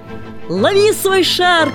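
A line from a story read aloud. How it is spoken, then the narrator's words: Laughing shout. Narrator (Russian): крикнул Ники со смехом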